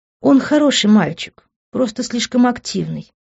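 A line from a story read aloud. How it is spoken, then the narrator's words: Affectionate. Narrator (Russian): ласково проговорила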